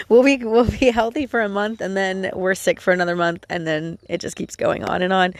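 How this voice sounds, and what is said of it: Congested voice from a cold. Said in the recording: “I don't know if you can hear it in my voice, but I caught a cold again.”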